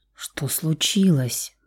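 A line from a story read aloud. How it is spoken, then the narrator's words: Whispered question. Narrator (Russian): почему-то шепотом спросила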